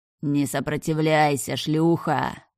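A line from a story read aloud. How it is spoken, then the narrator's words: Vicious growl. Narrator (Russian): прорычал выродок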